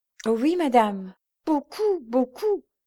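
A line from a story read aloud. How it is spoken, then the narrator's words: Exclaiming. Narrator (French): s'écria Georges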